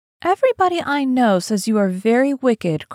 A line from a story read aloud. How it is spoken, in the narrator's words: cried the old lady